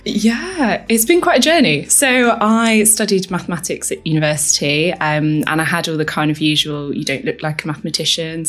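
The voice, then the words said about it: Posh English accent. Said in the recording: “from my voice, maybe you can hear I've got quite a posh accent, which I picked up at university. I actually am a northerner”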